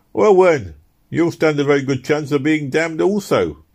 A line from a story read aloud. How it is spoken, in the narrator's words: exclaimed one of the two young men